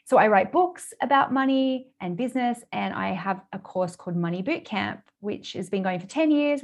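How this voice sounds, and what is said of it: Australian accent. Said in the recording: “I live in Australia, which probably people can tell by my accent.”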